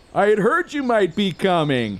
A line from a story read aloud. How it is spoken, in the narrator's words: he yelled way too loudly and dangerously close